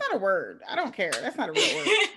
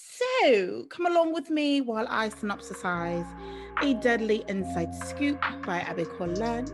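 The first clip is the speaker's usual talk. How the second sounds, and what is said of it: Put-on English accent. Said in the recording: “There's absolutely no reason for me to be speaking in an English accent”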